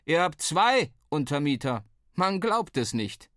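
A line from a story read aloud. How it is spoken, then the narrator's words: Called out. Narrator (German): rief uns zu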